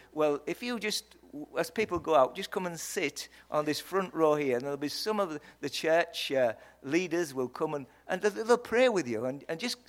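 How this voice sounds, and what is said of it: Yorkshire English accent. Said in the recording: “a weird English man. I hope you understood my accent. It's from Yorkshire.”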